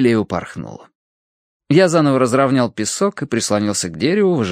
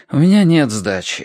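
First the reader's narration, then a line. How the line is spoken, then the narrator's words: Sigh. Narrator (Russian): вздохнул я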